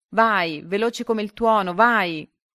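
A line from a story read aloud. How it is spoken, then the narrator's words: Shouting from below. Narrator (Italian): Giulio in basso che gridava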